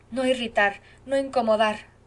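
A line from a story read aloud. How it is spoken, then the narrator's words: Polish man exclaiming. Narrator (Spanish): exclamó el polaco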